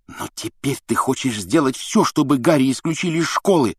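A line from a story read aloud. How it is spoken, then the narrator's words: Angry hiss. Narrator (Russian): зло прошипел Рон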